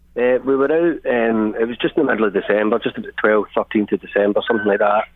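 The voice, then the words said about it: Glasgow Scottish accent. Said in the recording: “Love the accent. What part of Scotland does that come from? ... I'm from Glasgow.”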